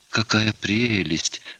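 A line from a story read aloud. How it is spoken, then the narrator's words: Whispered. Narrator (Russian): прошептала Варвара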